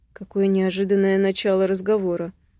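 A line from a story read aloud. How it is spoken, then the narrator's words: Snorting. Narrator (Russian): хмыкает Терет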